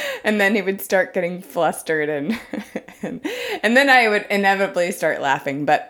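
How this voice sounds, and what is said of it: Usual voice. Nothing is said of it.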